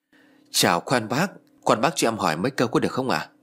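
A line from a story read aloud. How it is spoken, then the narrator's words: Soft question. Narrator (Vietnamese): ông Hải khẽ hỏi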